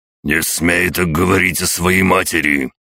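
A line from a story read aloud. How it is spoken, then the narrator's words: Roaring emperor. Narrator (Russian): проревел император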